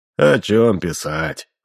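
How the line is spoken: Sighing. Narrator (Russian): вздохнул ученый

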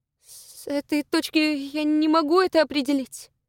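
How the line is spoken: Nervous stammering. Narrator (Russian): нервно заикаясь, произнесла она

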